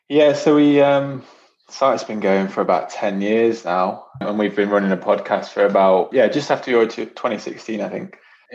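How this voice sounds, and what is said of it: English Nottingham accent. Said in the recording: “you've got a nice English accent there ... Nottingham accent”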